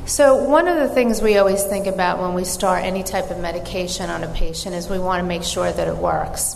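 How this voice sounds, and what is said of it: New York accent. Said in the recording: “I'm from New York and have an accent”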